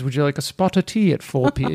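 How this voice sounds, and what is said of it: Mock British accent. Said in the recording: “it always sounds like a good idea with a British accent ... they're just so charming about it”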